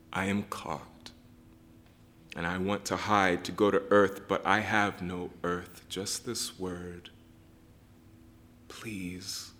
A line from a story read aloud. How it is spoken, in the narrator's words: say softly